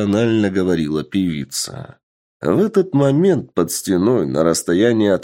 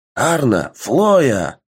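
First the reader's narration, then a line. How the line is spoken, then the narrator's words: Exclaiming knight. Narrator (Russian): воскликнул один из рыцарей на стороне вампиров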